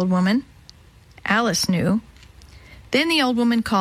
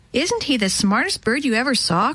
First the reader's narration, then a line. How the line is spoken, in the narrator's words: cried Alice